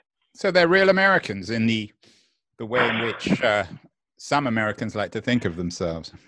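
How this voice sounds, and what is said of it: British accent. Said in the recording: “that sounds different when you say it in a British accent”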